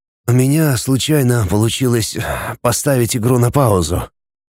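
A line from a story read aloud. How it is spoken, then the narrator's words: Wheezed. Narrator (Russian): просипел я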